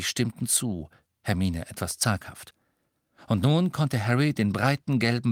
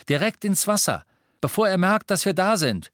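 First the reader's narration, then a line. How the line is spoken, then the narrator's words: Calling back to others. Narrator (German): rief Harry nach hinten den anderen zu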